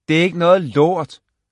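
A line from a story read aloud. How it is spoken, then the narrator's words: Shouting toward bathroom. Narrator (Danish): råbte Ray i retning af badeværelse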